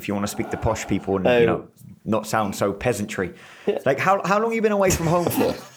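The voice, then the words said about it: Strong regional English accent. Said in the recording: “You've kept yours, obviously. I don't know how it's going to be so strong.”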